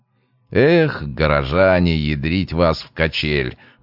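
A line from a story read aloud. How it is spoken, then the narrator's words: Grumbling. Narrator (Russian): ворчал Трофимов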